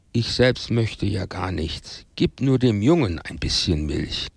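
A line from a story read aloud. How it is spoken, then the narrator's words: Very sad woman. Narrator (German): Als die Frau begriff, dass der Hausherr äußerst erzürnt war, sagte sie sehr traurig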